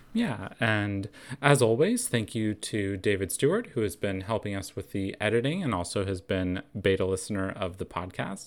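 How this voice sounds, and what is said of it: Unusually low, strained voice. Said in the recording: “apologize for my voice ... I hope it wasn't too bad for people ... next week, hopefully, I will have a little bit higher voice”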